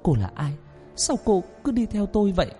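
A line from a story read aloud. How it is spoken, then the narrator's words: Trembling question. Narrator (Vietnamese): Tôi lên tiếng run run hỏi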